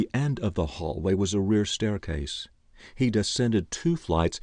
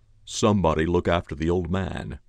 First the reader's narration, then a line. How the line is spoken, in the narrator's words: he growled